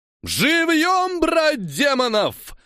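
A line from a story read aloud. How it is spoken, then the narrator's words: Yell. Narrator (Russian): заорал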